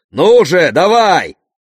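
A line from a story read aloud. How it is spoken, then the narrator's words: Furious monstrous roar. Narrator (Russian): Чудище взревело от ярости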